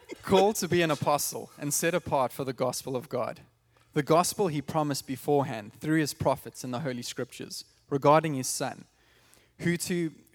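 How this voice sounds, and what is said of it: South African accent. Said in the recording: “it sounds better with South African accent”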